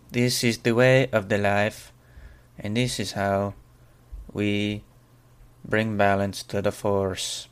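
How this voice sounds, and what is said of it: Put-on Mexican-Russian mixed accent. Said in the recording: “This accent is sponsored by Mexicans. ... I hope you are very happy with this accent ... it's kind of like a Russian vibe too. I kind of did like a mix between the two”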